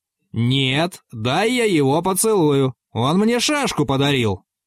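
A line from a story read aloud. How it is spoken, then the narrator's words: Shout. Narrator (Russian): кричал Иван Матвеевич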